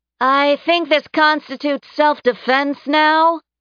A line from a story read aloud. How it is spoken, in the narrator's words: Karma shouted